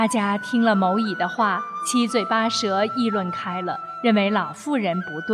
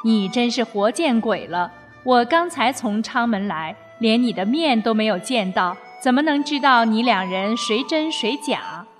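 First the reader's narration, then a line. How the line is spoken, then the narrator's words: Laughing. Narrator (Chinese): 乙笑着说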